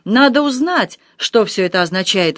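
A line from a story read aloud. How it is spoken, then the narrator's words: Exclaimed. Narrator (Russian): воскликнул он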